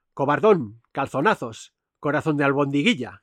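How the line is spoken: Woman shouting while struggling. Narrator (Spanish): gritó la primorosa, pugnando por arrancar el arma a su marido

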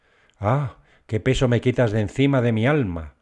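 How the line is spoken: Woman's exclamation. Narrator (Spanish): exclamó la señora

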